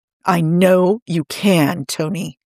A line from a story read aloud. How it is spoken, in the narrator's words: Steve said firmly